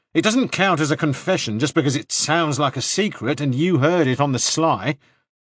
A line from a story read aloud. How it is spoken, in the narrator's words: he said angrily